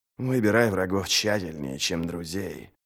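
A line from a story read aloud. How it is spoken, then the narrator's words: Muttering. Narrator (Russian): бормотал Ничто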